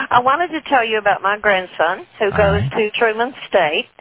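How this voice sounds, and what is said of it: Texas accent. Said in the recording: “Where's that accent from? ... Texas.”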